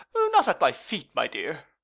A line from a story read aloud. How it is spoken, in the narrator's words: cried the doctor